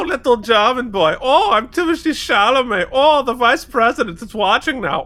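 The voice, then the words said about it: Little German schoolboy voice. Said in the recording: “He's like little German schoolboy Chalamet. ... your impression.”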